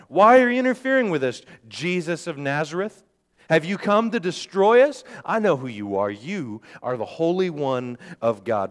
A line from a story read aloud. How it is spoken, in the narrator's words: a man possessed by an evil spirit cried out